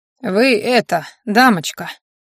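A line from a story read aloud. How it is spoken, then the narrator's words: Deep thick voice. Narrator (Russian): произнес Верзила с густым голосом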